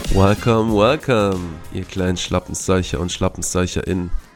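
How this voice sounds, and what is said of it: Nasal, congested voice. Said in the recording (German): “mit deiner Erkältung ... heute in anderem Ton von mir ... mit bisschen Akzent von Nase her”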